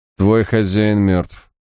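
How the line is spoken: Flat colorless voice. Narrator (Russian): бесцветным голосом сообщил Харснет

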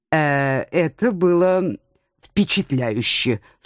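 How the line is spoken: Strained, reluctant. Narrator (Russian): с трудом выдавил из себя мой муж, поскольку именно на него работал в нашей компании эльф-оригинал

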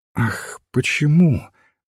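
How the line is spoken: Thoughtful. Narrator (Russian): задумчиво сказал священник

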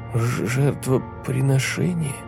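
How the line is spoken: Timid voice. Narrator (Russian): сказал Фил робким голосом

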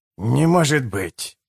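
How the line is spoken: Sharp exhale. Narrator (Russian): колко выдохнул мордашка

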